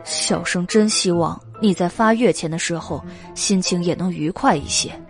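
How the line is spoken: Sighing. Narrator (Chinese): 袁耀叹道

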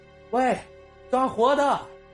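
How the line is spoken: Shouting. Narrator (Chinese): 风不绝 又喊了一句

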